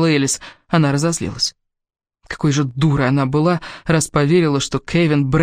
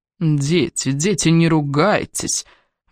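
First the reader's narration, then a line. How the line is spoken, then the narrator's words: Soft, smug murmur nearby. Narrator (Russian): Мягко прожурчал рядом самодовольный голос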